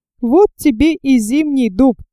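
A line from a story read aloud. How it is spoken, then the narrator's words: Giggled. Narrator (Russian): хихикнул кто-то на задней парте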